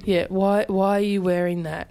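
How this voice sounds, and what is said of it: Put-on American accent. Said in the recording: “in American accent”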